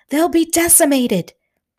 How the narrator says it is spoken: shouting

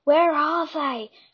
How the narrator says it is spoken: whispered to herself

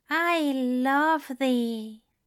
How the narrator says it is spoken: said slowly, his voice smooth and warm

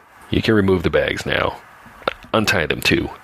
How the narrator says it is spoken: says Mr

